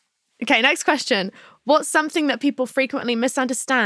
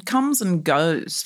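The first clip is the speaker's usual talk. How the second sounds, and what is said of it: Poor attempt at Australian accent. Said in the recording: “That was awful. ... No, it's not bad. If you want to sound Australian”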